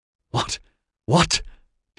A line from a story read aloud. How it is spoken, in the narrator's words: Dinlay spluttered